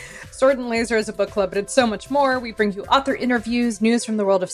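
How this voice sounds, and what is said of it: Usual voice. Nothing is said of it.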